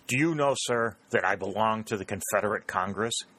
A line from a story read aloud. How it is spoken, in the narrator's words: exclaimed angrily